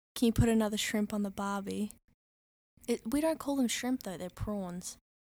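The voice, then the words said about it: Australian accent. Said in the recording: “she's Australian ... her accent, you guys are going to die ... Can you say, like, a very Australian thing to say?”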